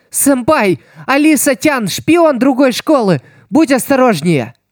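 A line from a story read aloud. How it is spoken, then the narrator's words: Shouted warning. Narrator (Russian): Кагами закричала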